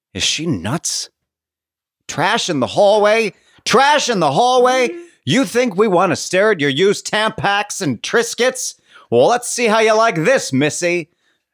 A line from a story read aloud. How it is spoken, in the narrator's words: to scream